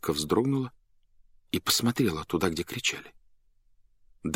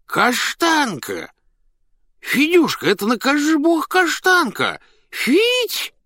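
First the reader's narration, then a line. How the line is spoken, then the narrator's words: Loud child and man calling. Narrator (Russian): два голоса, один детский, другой мужской, громко позвали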